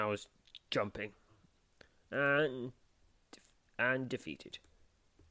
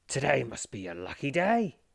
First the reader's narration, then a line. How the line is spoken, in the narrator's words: he gasps